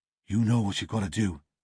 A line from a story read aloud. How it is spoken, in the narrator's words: muttered